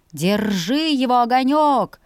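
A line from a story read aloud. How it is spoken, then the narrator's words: Growling grumble. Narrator (Russian): рычаще проворчал он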